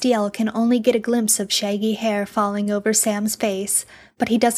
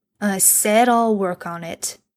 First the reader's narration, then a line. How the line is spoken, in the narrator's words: Bobby says gruffly